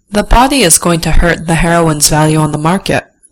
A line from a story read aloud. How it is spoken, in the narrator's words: Chloe says with a sigh